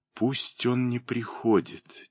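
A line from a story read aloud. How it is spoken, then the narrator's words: Said quietly. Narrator (Russian): тихо сказала Поля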